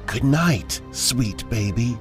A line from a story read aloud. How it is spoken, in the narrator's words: whispered in a female voice